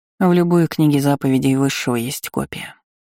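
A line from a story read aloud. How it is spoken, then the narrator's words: Grim assurance. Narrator (Russian): мрачно заверила тетушка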